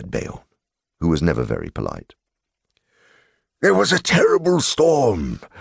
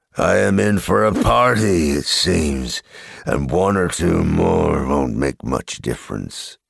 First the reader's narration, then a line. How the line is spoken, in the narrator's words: growled Beorn